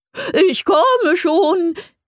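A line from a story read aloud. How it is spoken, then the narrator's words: Joyful call. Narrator (German): rief eine freudige Stimme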